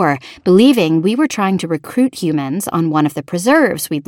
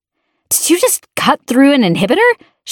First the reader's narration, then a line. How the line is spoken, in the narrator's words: she snapped